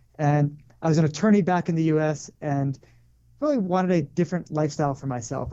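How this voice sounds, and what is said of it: American accent. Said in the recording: “I'm originally from the U.S., as you could probably tell from the accent”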